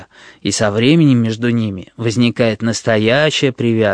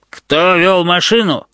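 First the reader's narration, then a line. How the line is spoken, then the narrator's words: Barked, policeman. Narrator (Russian): рявкнул тот фараон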